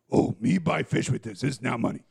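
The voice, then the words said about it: Cookie Monster character voice. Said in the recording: “That was my Cookie Monster impression,”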